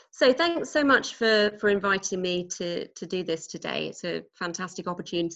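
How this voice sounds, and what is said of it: British English accent. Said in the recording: “As you can probably tell from my accent, I'm not a native Texan... I actually come from quite a small city in the UK called Norwich”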